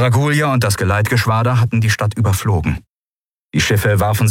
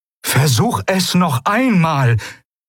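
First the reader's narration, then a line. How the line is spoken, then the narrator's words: Eidolon calling out. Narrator (German): rief das Eidolon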